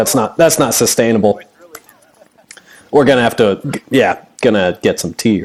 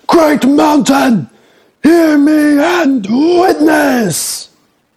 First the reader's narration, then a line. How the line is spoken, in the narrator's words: he screams out